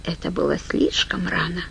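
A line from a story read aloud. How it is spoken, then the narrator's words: Whisper. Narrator (Russian): прошептала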